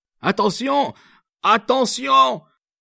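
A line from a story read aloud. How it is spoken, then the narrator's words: Sudden shout. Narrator (French): cria tout d'un coup le capitaine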